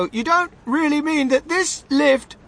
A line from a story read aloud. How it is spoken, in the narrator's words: shouted Grandpa Joe